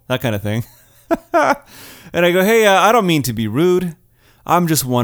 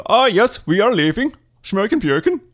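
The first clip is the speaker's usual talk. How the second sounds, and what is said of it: Fake Swedish accent. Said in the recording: “Can I do a Swedish accent?”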